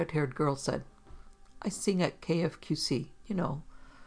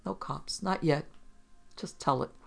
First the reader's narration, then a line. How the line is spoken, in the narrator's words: said quietly